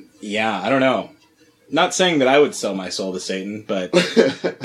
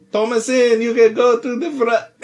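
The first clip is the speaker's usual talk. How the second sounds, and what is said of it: Put-on Middle Eastern accent. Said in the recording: “Middle Eastern accent”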